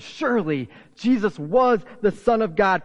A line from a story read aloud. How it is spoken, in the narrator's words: The guards here exclaimed